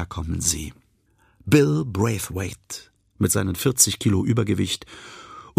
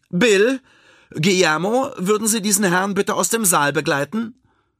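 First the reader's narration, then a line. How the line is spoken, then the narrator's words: Called out. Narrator (German): Frieda ruft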